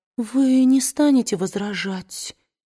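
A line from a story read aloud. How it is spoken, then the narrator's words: Timid. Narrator (Russian): сказала она робко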